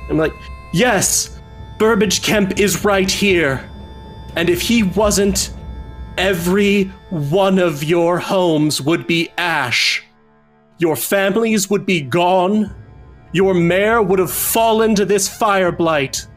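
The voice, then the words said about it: Booming, ringing proclamation voice. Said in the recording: “I'm gonna cast Thaumaturgy so that my voice is ringing out.”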